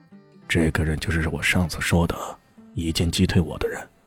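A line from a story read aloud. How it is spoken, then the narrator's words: Low voice. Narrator (Chinese): 他 又低声说了句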